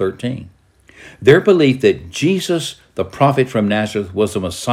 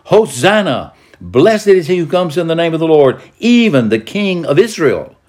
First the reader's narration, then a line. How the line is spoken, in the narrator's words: The crowds exclaimed